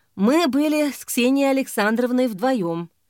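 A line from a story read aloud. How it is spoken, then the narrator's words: Sighing. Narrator (Russian): вздохнув, сказал он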